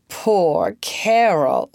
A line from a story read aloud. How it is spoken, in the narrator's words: laughed the child merrily